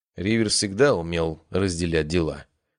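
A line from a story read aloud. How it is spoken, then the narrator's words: Gloomy reply. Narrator (Russian): мрачно ответил Леон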